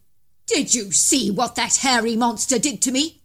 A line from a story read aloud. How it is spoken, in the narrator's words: he snapped